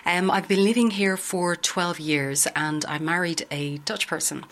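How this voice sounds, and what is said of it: Irish accent. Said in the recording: “As you can hear from my accent, I'm Irish.”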